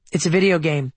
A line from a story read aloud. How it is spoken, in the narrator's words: she said